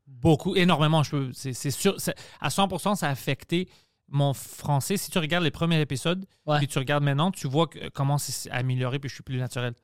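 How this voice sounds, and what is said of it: Strong unusual French accent. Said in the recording (French): “T'as comme un gros accent quand même qui t'appartient ... un accent, on pourrait pas dire, là, mettons, d'où c'est que ça vient”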